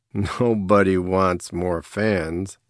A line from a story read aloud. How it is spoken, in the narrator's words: Baz laughed